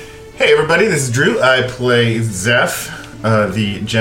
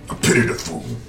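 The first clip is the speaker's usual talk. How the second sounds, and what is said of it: Quiet imitation of another person's voice. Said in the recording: “Mr. T always does his quietly, though. He's not loud. He's a quiet. ... That was good.”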